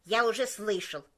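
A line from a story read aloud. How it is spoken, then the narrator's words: Sharp interrupting cook. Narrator (Russian): резко перебил повар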